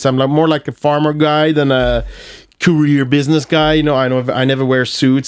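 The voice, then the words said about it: Swedish Skåne regional accent. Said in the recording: “my accent. You know, I'm from Malmö, so I have this... I speak skånska ... Prata skånska. So, you know, maybe that accent”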